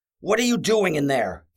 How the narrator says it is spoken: Coward yelled

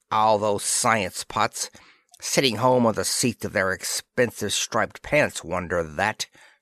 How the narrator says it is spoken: snarled Dispro

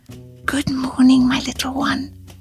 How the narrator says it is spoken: she whispered

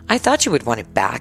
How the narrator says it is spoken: he said a little bitterly

